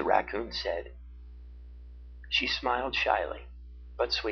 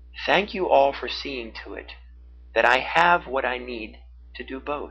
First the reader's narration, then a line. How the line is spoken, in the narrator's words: said kindly